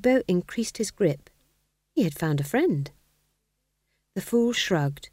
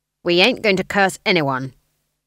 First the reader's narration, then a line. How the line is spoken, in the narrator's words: said Granny firmly